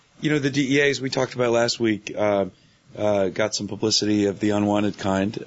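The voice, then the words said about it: Strained, worn-out voice. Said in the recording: “apologize for my voice. It's a combination of a bug I caught from my daughter and my yelling at the TV”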